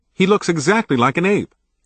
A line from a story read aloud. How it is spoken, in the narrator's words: exclaimed a terrified young white girl